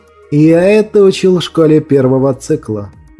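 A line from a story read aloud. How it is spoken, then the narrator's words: Mocking. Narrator (Russian): насмешливо ответил Ариман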